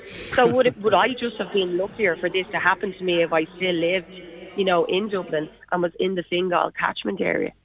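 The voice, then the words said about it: Dublin Irish accent. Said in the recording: “as you can tell by my accent, I'm a Dub originally”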